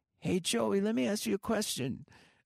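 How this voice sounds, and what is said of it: Imitates another person's voice. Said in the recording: “I can't do his accent that great”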